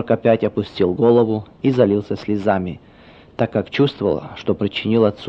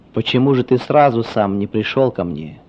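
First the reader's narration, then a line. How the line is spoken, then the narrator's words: Sad question from father. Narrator (Russian): грустно спросил отец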